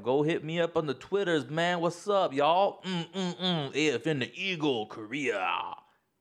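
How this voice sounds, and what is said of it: DJ-style radio voice. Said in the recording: “I like the voice. I like your radio voice, your Korean radio voice.”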